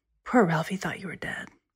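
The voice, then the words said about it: Lowered, quieter voice. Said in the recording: “in a lower voice”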